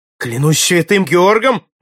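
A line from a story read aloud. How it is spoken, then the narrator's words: Young man exclaiming. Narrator (Russian): воскликнул юный Форд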